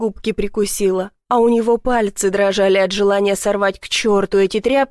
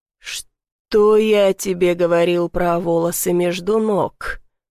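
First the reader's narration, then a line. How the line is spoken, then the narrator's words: Growled. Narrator (Russian): прорычал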